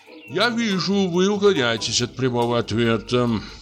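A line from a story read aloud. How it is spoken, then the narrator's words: Sullen grumble. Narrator (Russian): проворчал угрюмо нотариус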